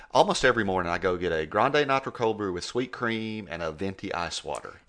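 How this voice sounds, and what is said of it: Speaks with a noticeable accent. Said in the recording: “when I give my name and with my accent”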